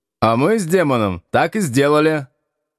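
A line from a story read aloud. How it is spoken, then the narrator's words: Happily laughing. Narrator (Russian): счастливо смеясь, сообщил Шахов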